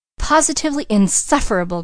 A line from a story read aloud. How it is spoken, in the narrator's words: cried Mrs